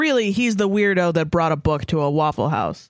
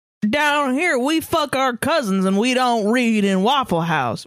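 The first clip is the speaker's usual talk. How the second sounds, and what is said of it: Put-on Southern accent. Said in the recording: “Southern accent”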